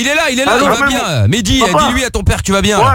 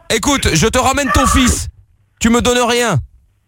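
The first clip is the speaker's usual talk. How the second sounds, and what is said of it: Put-on Marseille French accent. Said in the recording (French): “voilà que j'ai l'accent marseillais maintenant”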